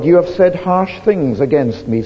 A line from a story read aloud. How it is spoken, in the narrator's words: says the Lord